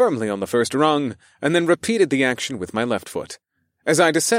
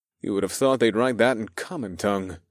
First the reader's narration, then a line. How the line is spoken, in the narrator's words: I chuckled